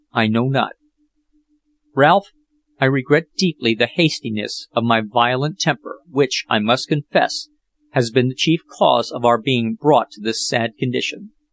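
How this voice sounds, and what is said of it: Tremulous, shaky voice. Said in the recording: “replied Jack in a tremulous voice.”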